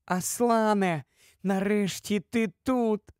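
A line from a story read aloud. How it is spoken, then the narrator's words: Sobbing with joy. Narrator (Ukrainian): схлипувала вона з радощів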